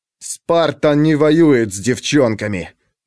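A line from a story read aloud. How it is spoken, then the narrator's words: Male growl. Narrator (Russian): прорычал он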